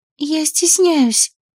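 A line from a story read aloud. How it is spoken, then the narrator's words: Strained, barely audible. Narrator (Russian): выдавила едва слышно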